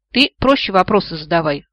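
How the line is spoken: Book snapping. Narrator (Russian): огрызнулась книга

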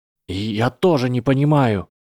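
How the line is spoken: Trembling voice. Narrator (Russian): сказал Гарри дрожащим голосом

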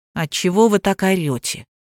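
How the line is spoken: Calm question. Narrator (Russian): спокойно поинтересовался Вовка

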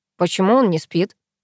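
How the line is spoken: Plain. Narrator (Russian): спросил Пашка

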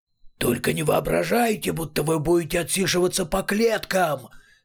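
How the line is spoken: Two voices shouting over each other. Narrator (Russian): заорали наперебой обе его головы

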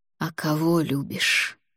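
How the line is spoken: Whisper. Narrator (Russian): прошептал он

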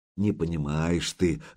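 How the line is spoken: Sighing. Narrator (Russian): вздохнул Духарев

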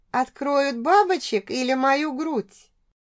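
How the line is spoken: Chuckling between ragged moans. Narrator (Russian): Посмеивалась я вперемешку с рваными стонами

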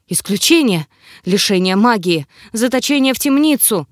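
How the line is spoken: Breathless, forced out. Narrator (Russian): все еще задыхаясь, выдавил ректор

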